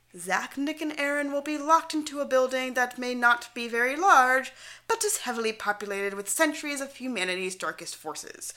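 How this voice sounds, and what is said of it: Odd unidentifiable put-on accent. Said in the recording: “Don't ask me what the fuck that accent was, because I have no clue.”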